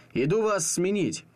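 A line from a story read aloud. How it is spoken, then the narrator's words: Shouted. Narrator (Russian): Он повернулся к окну и крикнул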